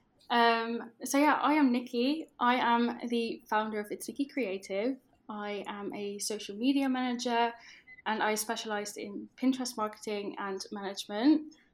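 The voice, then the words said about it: Dutch accent. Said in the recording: “I am Dutch, which you might be able to tell from my accent”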